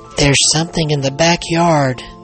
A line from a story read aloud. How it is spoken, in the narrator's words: Billy exclaimed